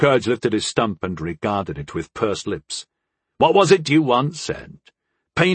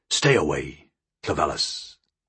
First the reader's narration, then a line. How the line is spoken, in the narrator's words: he growled, all cordiality having bled from his voice